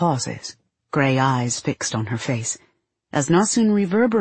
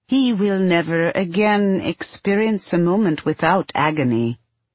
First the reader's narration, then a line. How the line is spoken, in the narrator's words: Steele replies in his colorless voice